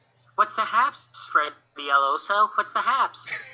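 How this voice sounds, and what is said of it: Imitates another person's voice. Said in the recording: “Can we get Sam Roberts to listen just based off that impression, please? Because that was awesome.”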